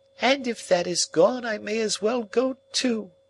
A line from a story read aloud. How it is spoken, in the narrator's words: she wailed